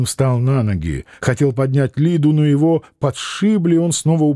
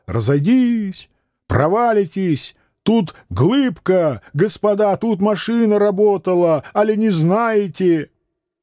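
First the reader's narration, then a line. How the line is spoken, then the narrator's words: Yelling. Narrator (Russian): Человек в полушубке орал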